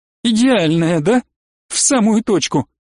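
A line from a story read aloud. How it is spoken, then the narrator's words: Laughing. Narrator (Russian): Она снова рассмеялась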